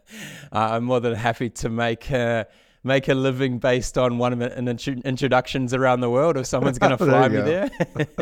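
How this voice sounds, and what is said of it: Southern Hemisphere accent. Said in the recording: “the accent, the south of the equator accent,”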